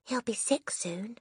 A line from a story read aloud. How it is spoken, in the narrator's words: Lavender whispered back